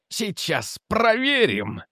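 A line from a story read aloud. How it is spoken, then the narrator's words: Joyful exclamation. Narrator (Russian): радостно воскликнул Мастерс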